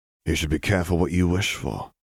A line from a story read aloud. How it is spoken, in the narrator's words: Harry whispered, his voice reverberating off the walls